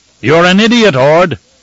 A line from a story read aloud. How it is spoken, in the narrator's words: Narvi thundered, as if he'd been waiting for any chance to shout an insult